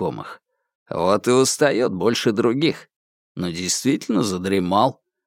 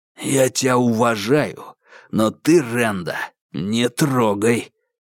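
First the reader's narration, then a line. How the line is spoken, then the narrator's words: Hoarse warning. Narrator (Russian): сипло предупредил Бугор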